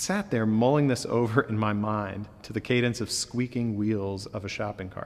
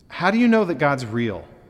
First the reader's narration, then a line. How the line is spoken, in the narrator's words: I blurted out